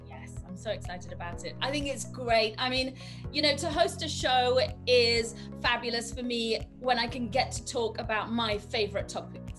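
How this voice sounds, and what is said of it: Noticeable foreign accent. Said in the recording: “we can hear that accent. Everybody can hear the accent. It's still there.”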